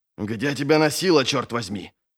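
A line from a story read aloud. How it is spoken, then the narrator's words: Angry outburst. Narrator (Russian): сердито накинулся на него офицер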